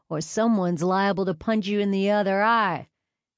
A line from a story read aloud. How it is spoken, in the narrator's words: Caden said with a lazy southern drawl